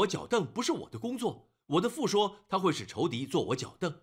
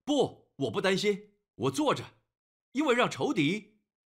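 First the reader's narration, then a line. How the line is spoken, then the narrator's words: Mocking laugh. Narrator (Chinese): 他会笑你说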